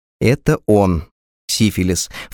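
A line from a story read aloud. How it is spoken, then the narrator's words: Stern inner voice. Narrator (Russian): вторично мысленно и строго сказал я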